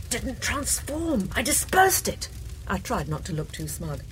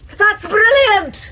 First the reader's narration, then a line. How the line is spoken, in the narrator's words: He yelled